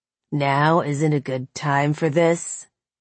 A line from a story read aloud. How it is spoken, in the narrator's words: he sneered, that hatred deepening